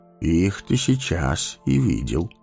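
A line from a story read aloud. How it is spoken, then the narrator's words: Calm. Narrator (Russian): спокойно сказал Гэндальф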